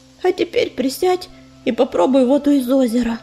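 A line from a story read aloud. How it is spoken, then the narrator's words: Wearily commanding. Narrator (Russian): устало велела целительница Ивушке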